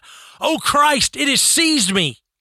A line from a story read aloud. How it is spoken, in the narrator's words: she shrieked out